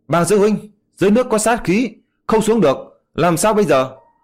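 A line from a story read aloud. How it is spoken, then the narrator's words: Urgent cry. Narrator (Vietnamese): Hứa Bội ra một bên kêu lên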